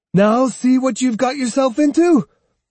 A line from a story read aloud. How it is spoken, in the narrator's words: yelled Matahachi